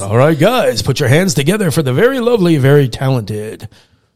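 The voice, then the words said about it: Strip club DJ announcer voice. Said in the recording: “I'll have the strip club DJ voice.”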